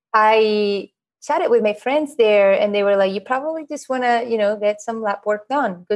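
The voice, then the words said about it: Spanish accent. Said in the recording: “back in Spain where I'm from, this is this accent that you're hearing”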